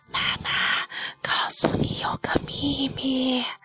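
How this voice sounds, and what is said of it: Tiny, thin whispering voice. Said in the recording (Chinese): “用蚊子细细的声音说”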